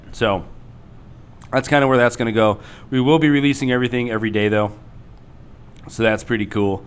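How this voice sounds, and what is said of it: Slightly rough, hoarse voice. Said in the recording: “my voice is a little crapped up”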